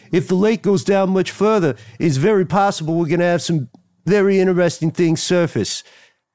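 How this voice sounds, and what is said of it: Put-on mobster voice. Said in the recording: “That is not what Dr. Green sounds like. I'm just doing mob voices. ... we're Sopranos fans. We're Godfather fans. It's fun to do a voice.”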